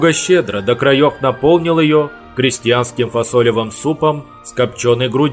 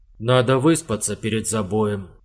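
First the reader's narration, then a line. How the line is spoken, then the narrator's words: Quiet and clear. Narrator (Russian): произнес он тихо и внятно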